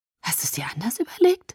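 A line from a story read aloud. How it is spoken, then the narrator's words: Breathless question. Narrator (German): fragte ich atemlos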